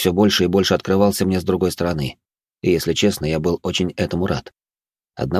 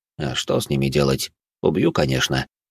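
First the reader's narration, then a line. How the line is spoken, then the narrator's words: Calm. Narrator (Russian): спокойно ответил де Аламик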